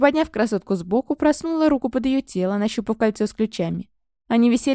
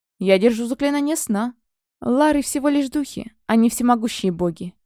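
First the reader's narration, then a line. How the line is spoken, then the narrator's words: Grumble. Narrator (Russian): проворчал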